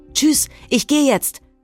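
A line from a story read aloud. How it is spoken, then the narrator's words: Called out. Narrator (German): rief sie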